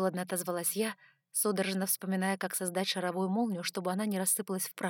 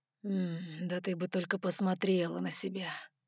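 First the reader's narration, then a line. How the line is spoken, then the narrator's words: Almost moaning. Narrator (Russian): Почти простонал он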